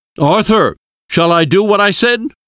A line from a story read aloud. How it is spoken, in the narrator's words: Van Helsing shouted